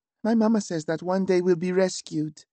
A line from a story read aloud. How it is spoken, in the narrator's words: said Oriand in a sad little voice